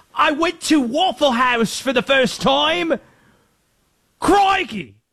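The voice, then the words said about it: Put-on Australian or English accent. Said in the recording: “I can't do any other accent. They're all gonna sound Australian or English. Some combination of the two.”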